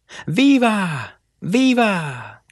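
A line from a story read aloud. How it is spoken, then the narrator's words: Men shouting. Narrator (Spanish): gritaron los hombres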